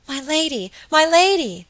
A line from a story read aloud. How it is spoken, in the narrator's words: cried Phoebe